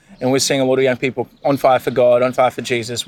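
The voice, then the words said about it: Australian-sounding accent. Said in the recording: “I could be forgiven for thinking you're Australian. Your accent is pretty dinky-dye.”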